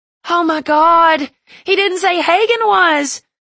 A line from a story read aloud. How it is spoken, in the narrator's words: the girl screamed hysterically